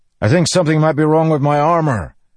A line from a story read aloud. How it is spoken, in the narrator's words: Dalinar shouted to him